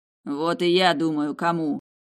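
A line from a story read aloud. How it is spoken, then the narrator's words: Growl. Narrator (Russian): прорычал Тиму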